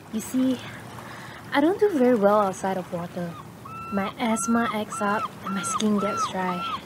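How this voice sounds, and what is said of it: Out of breath, breathless voice. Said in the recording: “You might be wondering why I'm out of breath.”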